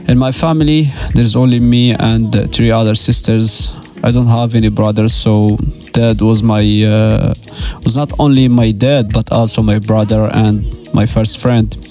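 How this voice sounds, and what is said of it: Low, subdued, sad-sounding voice. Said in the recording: “the tone of my voice is a little bit down, as you can hear and feel”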